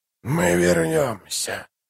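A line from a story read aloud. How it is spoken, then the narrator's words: Whisper. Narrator (Russian): прошептал он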